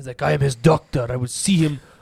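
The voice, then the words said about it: Put-on unidentifiable foreign accent. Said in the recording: “am I allowed to do that accent? ... I don't know what accent you're trying to do.”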